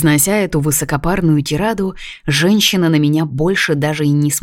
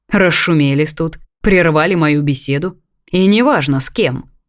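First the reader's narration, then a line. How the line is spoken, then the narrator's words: Sharp, harsh retort. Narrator (Russian): добавил так резко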